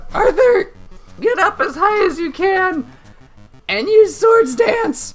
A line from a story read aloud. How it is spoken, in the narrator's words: Sneeze is going to shout out